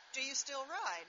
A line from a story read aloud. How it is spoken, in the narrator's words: her tone cooled